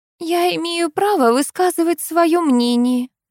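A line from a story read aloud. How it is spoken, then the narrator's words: Babbling timidly. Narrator (Russian): пролепетала Элла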